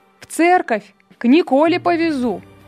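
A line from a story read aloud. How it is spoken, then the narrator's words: Driver shouting from street. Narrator (Russian): крикнул с улицы возница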